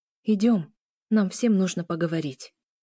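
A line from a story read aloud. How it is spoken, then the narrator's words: Very quiet. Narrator (Russian): очень тихо произнесла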